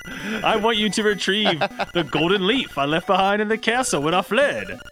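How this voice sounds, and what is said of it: Put-on American accent, different voice. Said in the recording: “sounded like an American accent, but not your voice, which is impressive”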